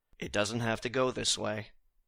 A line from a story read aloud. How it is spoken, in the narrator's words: to just very calmly say